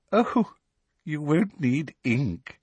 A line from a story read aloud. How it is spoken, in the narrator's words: said Professor Umbridge, with the merest suggestion of a laugh in her voice